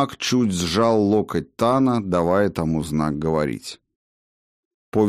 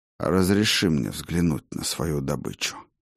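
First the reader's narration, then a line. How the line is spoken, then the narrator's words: Quietly, magician. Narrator (Russian): негромко произнес маг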